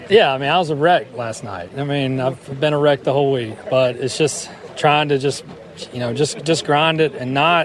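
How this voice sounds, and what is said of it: Southern American accent. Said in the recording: “with a southern accent”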